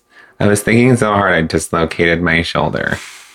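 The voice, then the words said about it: Quote read in put-on accent. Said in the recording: “I needed to fucking put that in an accent.”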